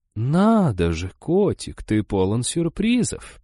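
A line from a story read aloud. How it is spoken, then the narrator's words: Drawled. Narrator (Russian): протянула Изабелла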